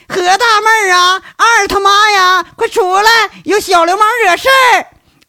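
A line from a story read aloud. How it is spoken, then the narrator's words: Loud straining shout. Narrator (Chinese): 宣大妈扯着脖子喊一嗓子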